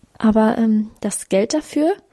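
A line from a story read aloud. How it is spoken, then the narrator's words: Stammering. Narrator (German): stammelte sie dann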